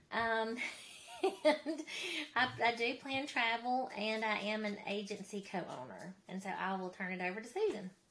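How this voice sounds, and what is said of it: Mississippi Southern US accent. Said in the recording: “I am from Mississippi, as you can tell by my accent.”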